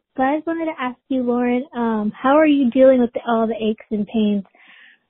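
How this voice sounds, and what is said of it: Out of breath. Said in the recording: “I'm out of breath because I'm pregnant”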